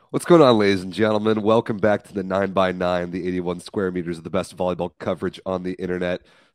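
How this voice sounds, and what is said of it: Strained, unwell-sounding voice. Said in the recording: “I'm a little under the weather. My voice is uh, not great.”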